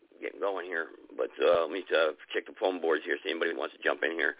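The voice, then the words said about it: Hoarse, strained voice. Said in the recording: “I'm starting to lose my voice”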